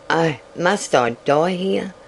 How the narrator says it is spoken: she murmured

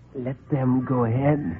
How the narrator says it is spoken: he whispered

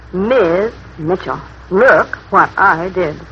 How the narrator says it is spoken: he'd grin slowly like a little boy caught in a jam closet and murmur

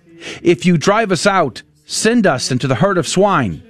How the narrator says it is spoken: The demons pleaded with him

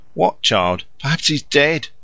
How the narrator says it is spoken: she gasped

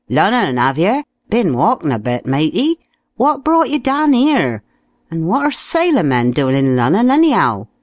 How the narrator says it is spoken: someone called out

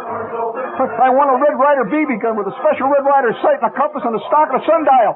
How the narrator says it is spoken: I shouted

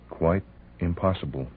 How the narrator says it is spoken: she murmured

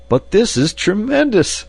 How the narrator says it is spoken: I cried

